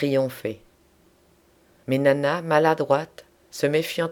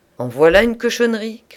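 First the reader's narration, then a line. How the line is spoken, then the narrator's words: Shouting man. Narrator (French): cria-t-il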